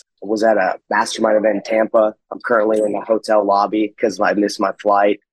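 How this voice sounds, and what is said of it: Rough, strained sick-sounding voice. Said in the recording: “Sorry about the voice. ... I guess I came down with something ... It's just my voice is jacked up.”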